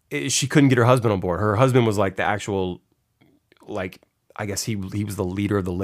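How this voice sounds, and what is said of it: Usual voice. Nothing is said of it.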